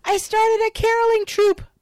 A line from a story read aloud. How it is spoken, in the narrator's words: proclaims loudly